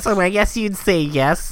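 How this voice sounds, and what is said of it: Nerdy imitated voice. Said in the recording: “nerd voice”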